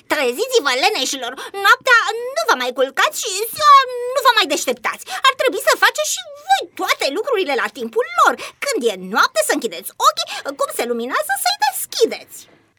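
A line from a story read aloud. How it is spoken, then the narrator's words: Mother shouting. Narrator (Romanian): mămica a strigat la ei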